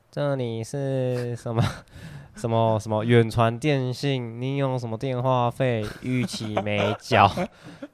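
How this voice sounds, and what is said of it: Imitated Vietnamese or Indonesian accent. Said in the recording (Chinese): “越南或是印尼口音”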